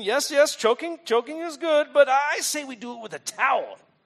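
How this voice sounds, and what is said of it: Clumsy put-on accent. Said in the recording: “I'm going to use accents. Don't be offended by my accents. A, because I don't know how to do accents. I will likely change my accent in the middle of this story.”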